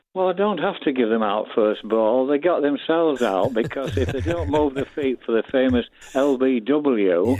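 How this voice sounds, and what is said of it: Yorkshire accent. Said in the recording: “I sense from your accent that you might be a Yorkshireman... the Yorkshire accent”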